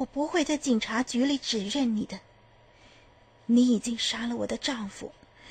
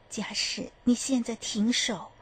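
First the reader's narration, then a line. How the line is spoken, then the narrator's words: Low voice. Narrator (Chinese): 她低声地说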